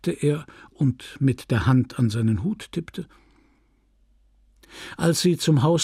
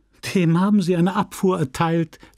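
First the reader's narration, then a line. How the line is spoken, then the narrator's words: Laughing. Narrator (German): lachte sie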